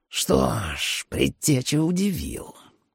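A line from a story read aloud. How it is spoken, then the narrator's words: Irritated, indignant hiss. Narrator (Russian): прошипел раздраженный, возмущенный Майерс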